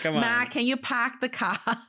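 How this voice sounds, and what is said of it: Put-on Boston accent. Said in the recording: “impersonate a Boston accent?”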